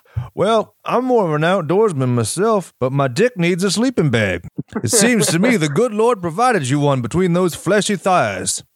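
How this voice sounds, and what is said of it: Cartoonish Foghorn Leghorn-style drawl. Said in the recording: “He doesn't talk like that. I don't know why he sounds like Foghorn Leghorn in my impersonation, but hey, you know, they can't all be the best.”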